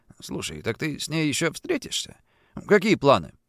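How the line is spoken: Beaming mutter. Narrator (Russian): Андрей, сияя, пробормотал

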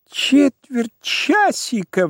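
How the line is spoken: Shrieked. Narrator (Russian): взвизгнул Моисей Моисеевич

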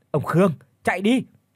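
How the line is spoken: Alarmed yell. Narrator (Vietnamese): Khi nhận ra ông ta mất cảnh giác, ông thầy Minh lúc này thì gào lên

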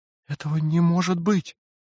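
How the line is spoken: Bewildered. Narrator (Russian): растерянно проговорила она

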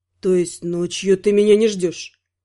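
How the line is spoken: Very quiet, hurt. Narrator (Russian): Голос прозвучал очень тихо и обиженно

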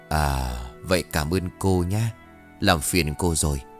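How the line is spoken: Old man replying. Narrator (Vietnamese): Ông cụ khẽ gật đầu rồi đáp

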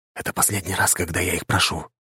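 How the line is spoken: Whisper. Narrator (Russian): произнес Роман шепотом

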